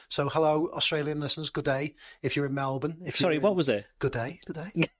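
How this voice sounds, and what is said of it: English accent. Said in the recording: “I'm saying it in my English accent.”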